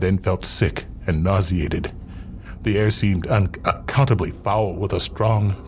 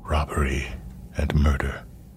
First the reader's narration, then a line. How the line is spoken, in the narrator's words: he whispered slowly to himself